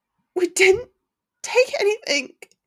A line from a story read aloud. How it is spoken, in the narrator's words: Hermione whimpered, her voice failing